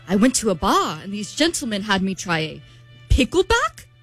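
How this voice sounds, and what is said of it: Bad put-on British accent. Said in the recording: “You have a terrible British accent. That is about the worst British accent I've ever heard. ... It's so bad.”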